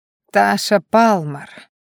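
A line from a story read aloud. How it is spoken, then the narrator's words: Pleased drawl, young man. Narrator (Russian): довольно протянул парень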